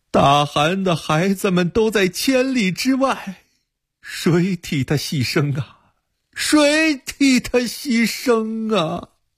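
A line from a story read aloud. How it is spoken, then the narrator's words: Crying. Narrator (Chinese): 乃马真一听马上哭了起来说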